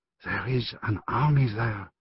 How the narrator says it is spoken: Eleanor whispered

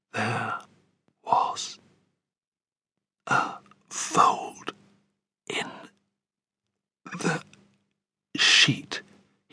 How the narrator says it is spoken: he said, speaking more slowly than ever now, and so softly, I had to lean close to hear him

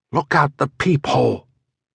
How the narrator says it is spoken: my wife whispered

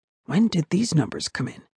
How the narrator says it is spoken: whispered

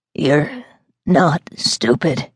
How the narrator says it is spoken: he croaked

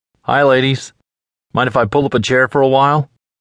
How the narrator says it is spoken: His smile never faltered

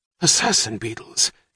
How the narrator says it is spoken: gasped Frank Murphy

